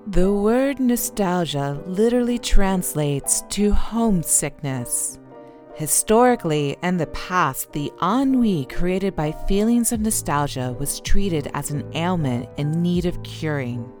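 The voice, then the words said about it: Calm NPR-style radio voice. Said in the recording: “let me get into my NPR voice”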